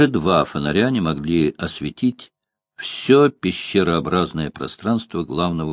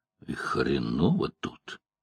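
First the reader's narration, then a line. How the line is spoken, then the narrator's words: Quiet. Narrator (Russian): тихо сказал Бобби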